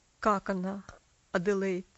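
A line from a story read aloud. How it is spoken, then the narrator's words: Strained attempt at calm. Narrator (Russian): спросил мистер Динсмор, тщетно пытаясь говорить спокойно и уверенно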